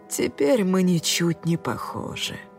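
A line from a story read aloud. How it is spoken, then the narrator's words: Upset sigh. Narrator (Russian): выдохнул он огорченно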